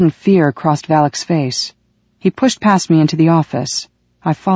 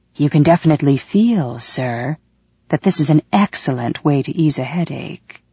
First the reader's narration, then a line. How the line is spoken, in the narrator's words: He said smoothly